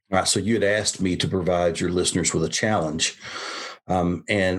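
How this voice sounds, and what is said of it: Smooth Southern American accent. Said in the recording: “a buttery smooth Southern accent”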